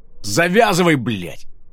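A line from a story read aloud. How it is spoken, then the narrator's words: Loud snapping retort. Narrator (Russian): громко огрызнулся Ридек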